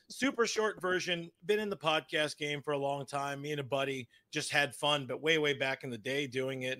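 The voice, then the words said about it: Strained, worn-out voice. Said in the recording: “My voice is a little shot. I went out to the bar last night to celebrate.”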